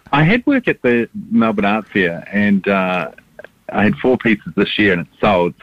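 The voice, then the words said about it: New Zealand accent. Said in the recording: “a little bit of an accent that you might have been originally from New Zealand”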